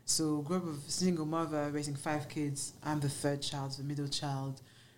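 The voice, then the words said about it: French accent. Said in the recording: “you hear your accent. Oh my gosh, you're French.”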